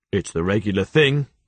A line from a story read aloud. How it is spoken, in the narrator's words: said Jaffers